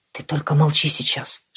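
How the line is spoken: Whispered. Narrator (Russian): шепнул я

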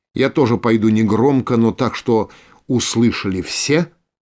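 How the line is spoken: Plain. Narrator (Russian): сказал Кан

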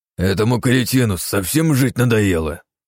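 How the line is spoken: Angry growl. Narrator (Russian): Зло рыкнул Вегас, командир группы

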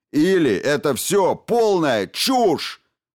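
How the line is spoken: Roar. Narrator (Russian): взревел Хокинс

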